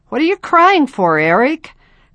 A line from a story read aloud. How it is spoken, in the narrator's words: Clay laughed